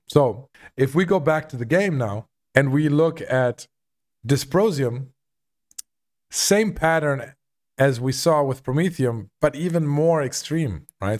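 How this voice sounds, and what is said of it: Voice slightly rough from a cold. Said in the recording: “my voice is a little bit still under the weather from having a cold”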